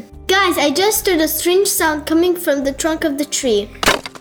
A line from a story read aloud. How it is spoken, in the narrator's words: she shouted